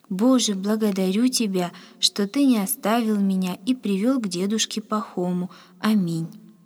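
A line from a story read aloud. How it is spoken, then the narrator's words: Quiet whisper. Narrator (Russian): тихо прошептал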